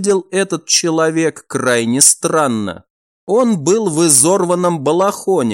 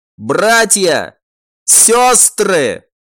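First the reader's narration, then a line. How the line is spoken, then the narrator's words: Joyful shout, man. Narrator (Russian): Мужчина радостно закричал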